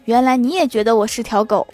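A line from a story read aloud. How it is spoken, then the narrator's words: Long sigh. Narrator (Chinese): 他长叹一口气 说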